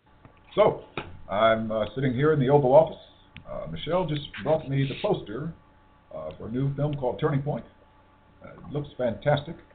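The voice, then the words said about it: Barack Obama impression. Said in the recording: “I heard you do this Obama impersonation”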